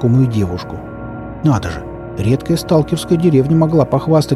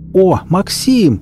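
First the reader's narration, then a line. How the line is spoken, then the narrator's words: Yelled from behind. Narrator (Russian): заорали позади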